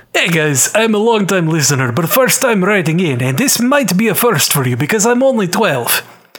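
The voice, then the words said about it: Put-on Russian accent. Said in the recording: “do this in a Russian accent”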